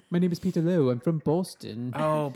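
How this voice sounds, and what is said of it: Imitates a bad, stuffed-up nasal accent. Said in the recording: “weird, funky accent ... his accent is so bad ... it sounded like he couldn't breathe through his nose ... He's stuffed up.”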